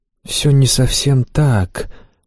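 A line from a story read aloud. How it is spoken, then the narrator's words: Gentle young man. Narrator (Russian): мягко объяснил мне высокий юноша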